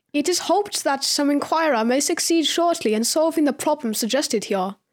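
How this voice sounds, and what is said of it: Einstein impression, German-style accent. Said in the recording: “Brilliant, brilliant accent. I actually thought I was in the room with the spirit of Einstein.”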